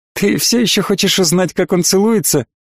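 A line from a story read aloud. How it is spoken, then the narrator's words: Nervous giggle. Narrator (Russian): нервно хихикнув, обращается к Лилиане принцесса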